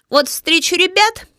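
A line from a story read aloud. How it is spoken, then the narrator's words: Loud, filling the hall. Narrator (Russian): громко сказала она на весь зал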